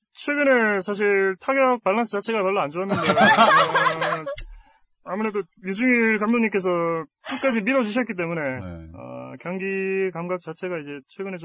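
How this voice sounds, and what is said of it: Imitates another person's voice. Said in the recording (Korean): “이승엽 성대모사는 대한민국 최고 ... 이승엽이 둘이서 얘기하는 걸로”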